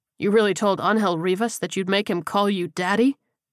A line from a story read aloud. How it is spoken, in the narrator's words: Leon laughed